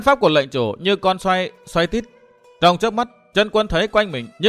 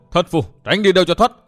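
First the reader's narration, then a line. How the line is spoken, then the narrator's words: Loud laughter. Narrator (Vietnamese): lệnh chủ cười lớn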